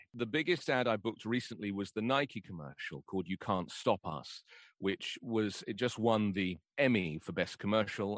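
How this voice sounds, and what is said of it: Deep mature British RP accent. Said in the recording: “It's deep, it's mature, and it's a classic British RP, received pronunciation, accent. Some people call it Queen's English or BBC English.”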